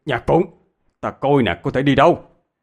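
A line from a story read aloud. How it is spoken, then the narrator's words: Shouting. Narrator (Vietnamese): Hạ Viên hét lên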